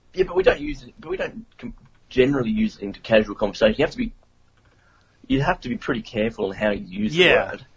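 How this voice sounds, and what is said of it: Cool-sounding foreign English accent. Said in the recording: “I like the accent, by the way. It sounds cool.”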